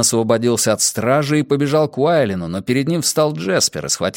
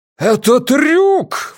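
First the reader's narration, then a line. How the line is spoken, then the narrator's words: Exclamation. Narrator (Russian): воскликнул Ван Эк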